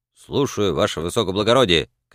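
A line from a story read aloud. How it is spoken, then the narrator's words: Shout. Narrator (Russian): крикнул фельдфебель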